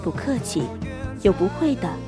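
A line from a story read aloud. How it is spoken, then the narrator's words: Gentle, smiling. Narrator (Chinese): 温柔地笑着说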